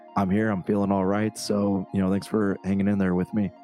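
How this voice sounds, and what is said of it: Strained, unwell-sounding voice. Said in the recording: “my voice is like really bad today”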